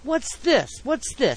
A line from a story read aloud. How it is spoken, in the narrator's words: exclaimed Mr